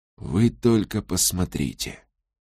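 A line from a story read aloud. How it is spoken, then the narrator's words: Whisper. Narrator (Russian): прошептал он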